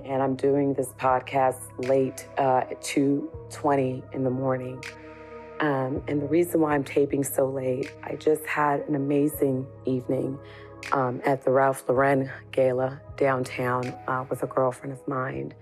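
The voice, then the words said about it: Hoarse, worn-out voice. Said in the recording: “My voice is a little bit gone”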